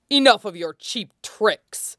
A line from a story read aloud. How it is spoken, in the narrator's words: he snarled, body abruptly prickling with heat